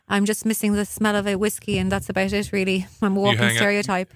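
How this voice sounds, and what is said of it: Irish accent. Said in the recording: “I'm from Ireland. ... my accent”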